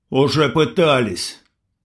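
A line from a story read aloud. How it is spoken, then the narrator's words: Angry reply. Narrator (Russian): сердито ответил индеец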